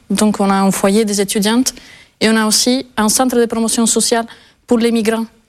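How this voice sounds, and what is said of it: Non-local accent in French. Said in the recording (French): “on entend votre accent, vous n'êtes pas totalement de la région”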